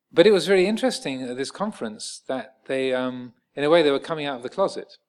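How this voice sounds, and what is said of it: English accent with slight American twang. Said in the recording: “I have a slight American twang to my formerly pucker English accent”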